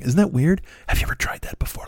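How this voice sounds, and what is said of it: Whispering. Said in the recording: “I can't laugh while I'm whispering ... that just sounds like you're having an attack. That sounds like an asthma attack if you laugh while you're whispering”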